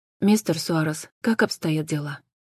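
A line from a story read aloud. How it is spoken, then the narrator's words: Quiet question. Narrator (Russian): тихо спросила Джен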